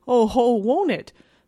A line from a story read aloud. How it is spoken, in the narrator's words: thundered the champion of the root of evil